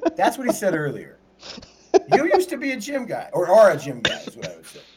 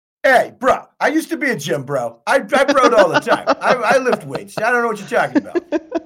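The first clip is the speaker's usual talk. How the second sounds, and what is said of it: Imitates another person's voice. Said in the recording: “best Barry impression ... spot on impression”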